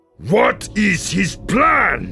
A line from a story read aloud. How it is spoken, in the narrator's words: Yiv shouted